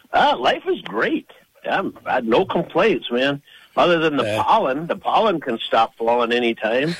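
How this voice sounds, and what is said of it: Slightly congested, altered voice. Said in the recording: “my voice is a little different this morning probably because of that”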